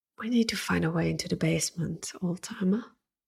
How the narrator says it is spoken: Ruby whispered right into his ear

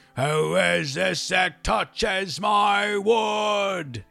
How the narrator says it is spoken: he roared

